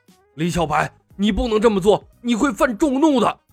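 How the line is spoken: Furious roar. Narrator (Chinese): 慧性和尚额头青筋直跳，咆哮道

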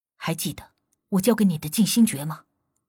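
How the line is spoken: Low steady voice. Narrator (Chinese): 无忌沉声道

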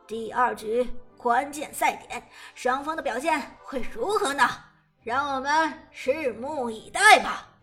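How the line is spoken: Smiling commentator. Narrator (Chinese): 解说子豪笑着说道

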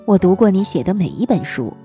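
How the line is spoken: Flat, detached mother. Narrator (Chinese): 母亲又淡淡的说

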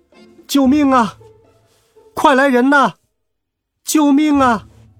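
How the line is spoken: Loud cry for help. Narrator (Chinese): 我大声疾呼

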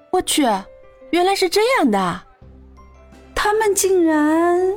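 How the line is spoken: Loud announcement. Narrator (Chinese): 慕容允浩 对着大家大声宣布道

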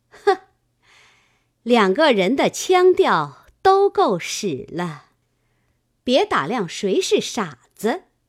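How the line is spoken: Sneering. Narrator (Chinese): 金贵冷笑道

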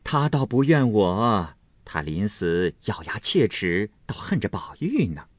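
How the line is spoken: Laughing. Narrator (Chinese): 凤姐笑道

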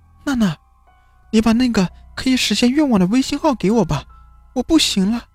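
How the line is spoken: Desperate pleading. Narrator (Chinese): 许静顾不得其他的，找到了李娜，哀求说

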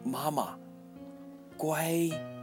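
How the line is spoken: Child calling loudly. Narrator (Chinese): 安安对着她的背影大声说

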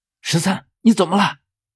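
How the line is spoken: Involuntary call. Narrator (Chinese): 我已经情不自禁地开口喊道

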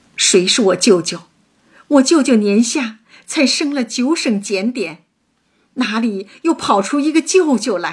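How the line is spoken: Choked, angry crying. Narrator (Chinese): 探春气得脸白气噎，哭着问道

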